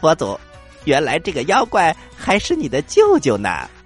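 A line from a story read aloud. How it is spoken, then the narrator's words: Laughing. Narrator (Chinese): 悟空听了，笑着说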